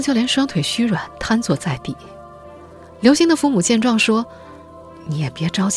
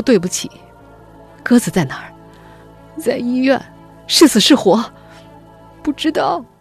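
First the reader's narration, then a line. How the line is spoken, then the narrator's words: Crying. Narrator (Chinese): 刘星见到他就哭着说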